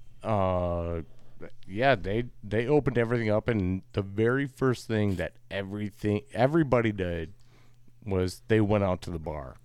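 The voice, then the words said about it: Wisconsin accent. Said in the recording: “you could tell, like, from my accent, I'm from Wisconsin”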